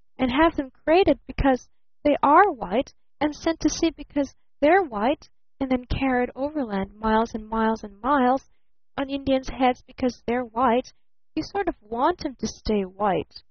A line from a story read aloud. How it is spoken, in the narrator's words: sighed little Eve Edgerton